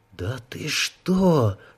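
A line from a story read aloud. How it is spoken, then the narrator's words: Whisper. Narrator (Russian): Шепотом произнес наблюдатель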